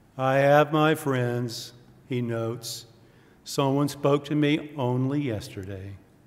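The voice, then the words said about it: Gloomy cartoon donkey character voice. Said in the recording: “I'll try to do my Eeyore voice. I used to be pretty good at this. I'm a little out of practice.”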